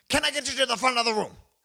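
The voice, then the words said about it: High-energy preacher voice. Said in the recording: “preacher voice, super high energy”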